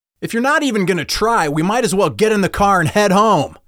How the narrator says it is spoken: yelled RJ's dad

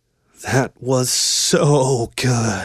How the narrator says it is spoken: she eventually breathed

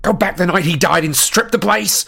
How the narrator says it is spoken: snarled Harry

